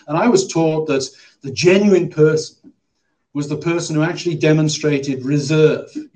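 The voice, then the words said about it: English accent. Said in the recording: “You can probably tell from my accent that I'm not from the south of New Jersey. I come from England.”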